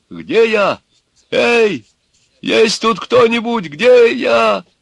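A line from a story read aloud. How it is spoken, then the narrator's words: Desperate shout. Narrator (Russian): во тьме кто-то отчаянно закричал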